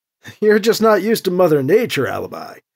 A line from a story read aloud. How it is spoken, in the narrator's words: Edward said with a short laugh